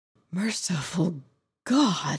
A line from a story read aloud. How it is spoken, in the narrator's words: he breathed